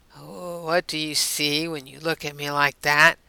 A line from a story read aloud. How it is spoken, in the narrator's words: John asked in a whisper